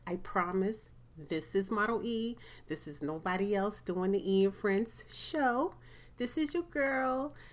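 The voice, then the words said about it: Sick, altered-sounding voice. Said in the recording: “Sorry if my voice sounds a little different from you guys ... I've been a little sick from the weather.”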